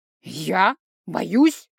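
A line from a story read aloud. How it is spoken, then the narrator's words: Contemptuous snort. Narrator (Russian): Папа презрительно фыркнул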